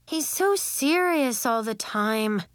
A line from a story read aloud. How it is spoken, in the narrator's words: Anemone moaned